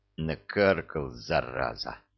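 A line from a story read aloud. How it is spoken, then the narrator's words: Barely audible hiss. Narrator (Russian): почти неслышно прошипел Санти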